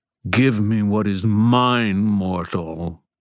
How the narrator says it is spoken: Ethneu snarled

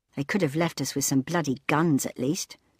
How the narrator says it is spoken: grumbled Leela

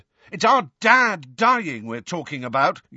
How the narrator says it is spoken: yelled George

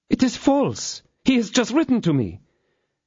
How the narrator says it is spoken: She had even the imprudence to exclaim

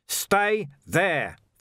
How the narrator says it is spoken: Vimes bellowed

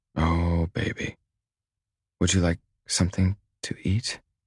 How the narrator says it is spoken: She whispers

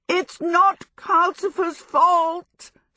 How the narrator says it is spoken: Sophie yelled

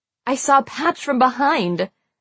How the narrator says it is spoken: I gasped

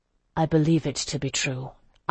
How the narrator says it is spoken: I said quietly

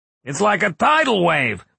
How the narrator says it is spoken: one of his men yelled

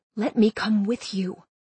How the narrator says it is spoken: I whispered urgently

